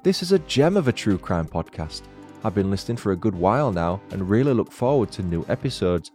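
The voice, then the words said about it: Lilting northern English accent. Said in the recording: “all delivered in a lovely lilting northern accent”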